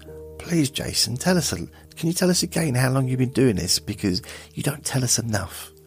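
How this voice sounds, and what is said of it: Sarcastic mocking tone. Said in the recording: “Stop being sarcastic.”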